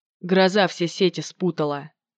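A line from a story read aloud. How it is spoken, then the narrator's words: Mutter after a pause. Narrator (Russian): пробормотал он через минуту молчания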